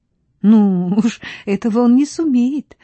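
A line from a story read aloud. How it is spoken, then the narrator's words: Laughing. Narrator (Russian): засмеялась Стефа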